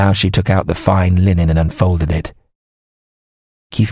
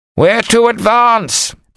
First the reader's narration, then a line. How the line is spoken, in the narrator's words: the man who came to the right wing shouted